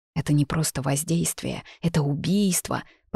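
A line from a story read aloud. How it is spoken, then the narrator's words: Whisper through tight lips. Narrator (Russian): прошептала я, сжав губы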